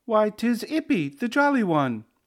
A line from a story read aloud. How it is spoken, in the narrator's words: he exclaimed